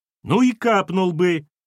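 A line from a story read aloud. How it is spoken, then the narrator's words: Yelled back. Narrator (Russian): тоже заорала Кира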